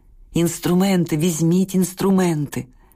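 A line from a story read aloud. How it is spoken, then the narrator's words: Moaning engraver. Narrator (Ukrainian): Стогнав карбувальник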